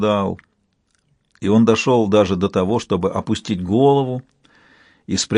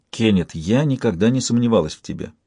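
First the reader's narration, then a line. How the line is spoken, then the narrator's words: Plain. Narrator (Russian): сказала она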